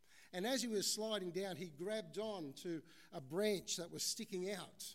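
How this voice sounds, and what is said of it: Usual voice. Nothing is said of it.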